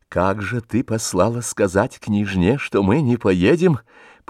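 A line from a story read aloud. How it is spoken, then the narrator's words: Voiceless irritated whisper. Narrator (Russian): потеряв голос, раздражительно прошептал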